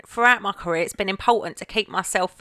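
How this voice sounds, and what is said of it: Put-on Essex accent. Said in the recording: “I should have done the accent. ... Essex”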